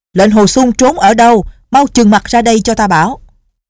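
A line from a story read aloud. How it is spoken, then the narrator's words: Loud shout. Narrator (Vietnamese): Định Vật Sư Thái lớn tiếng quát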